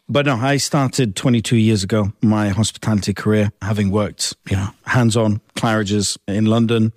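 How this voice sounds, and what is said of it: English accent. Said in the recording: “you have a lovely English accent”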